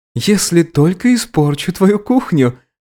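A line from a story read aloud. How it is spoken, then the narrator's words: Chuckling. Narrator (Russian): хохотнул Руфер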